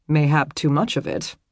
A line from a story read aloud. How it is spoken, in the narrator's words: he commented dryly